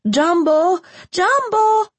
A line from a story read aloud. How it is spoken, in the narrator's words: The children shouted